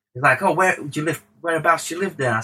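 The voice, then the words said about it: Imitates another person's voice, badly. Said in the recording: “This is a really terrible Pitbull accent”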